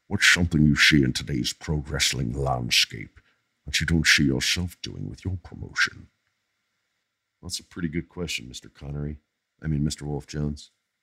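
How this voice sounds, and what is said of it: Sean Connery impression. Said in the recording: “This is Sean Connery. ... it's such a good impression.”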